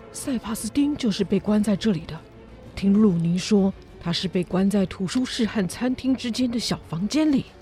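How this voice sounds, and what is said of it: Quiet, hushed speaking voice. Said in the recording (Chinese): “检察官小声地说”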